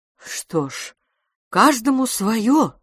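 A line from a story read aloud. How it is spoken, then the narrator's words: Uncertain. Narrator (Russian): сказала мисс Петтигрю неуверенно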